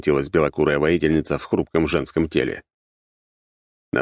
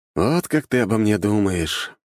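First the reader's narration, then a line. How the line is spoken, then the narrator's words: Sighed. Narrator (Russian): вздохнул я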